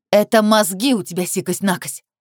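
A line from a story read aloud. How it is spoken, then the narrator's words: Ungrateful daughter barking. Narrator (Russian): рявкнула неблагодарная дочь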